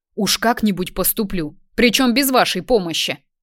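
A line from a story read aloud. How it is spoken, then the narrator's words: Barking. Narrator (Russian): Рявкнул на них Артем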